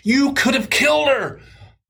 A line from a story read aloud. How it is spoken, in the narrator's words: I screamed at the top of my lungs